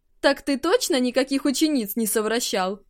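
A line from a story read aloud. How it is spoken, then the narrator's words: Mocking question. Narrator (Russian): насмешливо уточнил глава алхимиков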